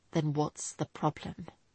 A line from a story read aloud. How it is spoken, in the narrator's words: He asked quietly